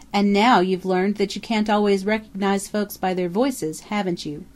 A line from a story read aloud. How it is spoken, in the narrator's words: chuckled Mocker